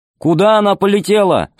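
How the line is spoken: Loud over engine noise. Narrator (Russian): спросил он громко, перекрывая жужжание двигателя

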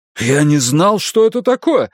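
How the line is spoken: Exclaimed. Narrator (Russian): воскликнул дворецкий

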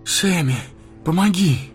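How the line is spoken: Breathless gasp. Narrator (Russian): выдохнул он

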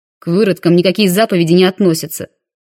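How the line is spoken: Barking. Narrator (Russian): рявкнул водитель

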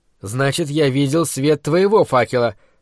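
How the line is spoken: Grumble. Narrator (Russian): проворчал я

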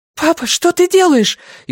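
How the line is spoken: Frightened question. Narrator (Russian): испуганно спросила Люми

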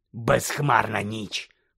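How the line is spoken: Hoarse rasp. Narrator (Ukrainian): прохрипів Мудді

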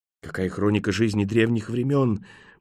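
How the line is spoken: Awed breathy young woman. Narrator (Russian): благоговейно выдохнула молодая женщина

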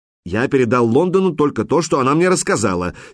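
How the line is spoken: Angry, aggrieved admission. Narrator (Russian): сердито признал Тар таким тоном, будто у него украли хорошую историю

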